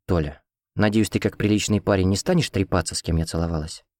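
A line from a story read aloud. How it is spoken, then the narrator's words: Quiet, secretive question. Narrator (Russian): Тихо спросила чтобы не услышал ее ухажёр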